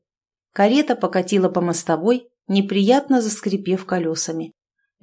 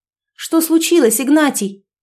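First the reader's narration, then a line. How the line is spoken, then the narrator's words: Calling out. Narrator (Russian): окликнула она кучера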